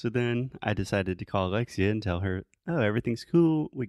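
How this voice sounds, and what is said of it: Usual voice. Nothing is said of it.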